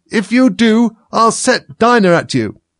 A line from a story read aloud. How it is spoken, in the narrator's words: Alice called out, as loud as she could